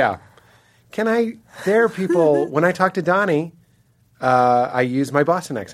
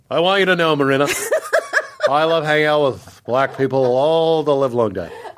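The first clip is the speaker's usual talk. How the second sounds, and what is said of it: Def Jam white guy voice. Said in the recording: “My Def Jam white guy voice.”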